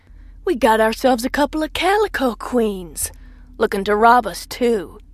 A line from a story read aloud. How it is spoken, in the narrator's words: he sneered